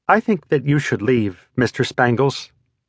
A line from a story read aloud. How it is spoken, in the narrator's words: she said timidly